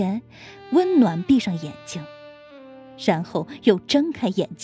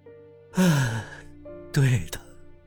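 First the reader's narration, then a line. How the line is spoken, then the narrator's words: Long heavy sigh. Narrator (Chinese): 谢畅张大嘴巴，仰天长叹道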